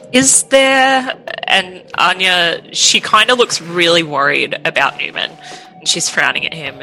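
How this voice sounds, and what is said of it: Usual voice. Nothing is said of it.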